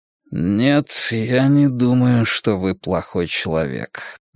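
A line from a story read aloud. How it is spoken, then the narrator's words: Muttered under breath. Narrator (Russian): неожиданно пробормотал он себе под нос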